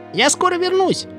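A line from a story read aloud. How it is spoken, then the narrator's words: Shouted. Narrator (Russian): крикнул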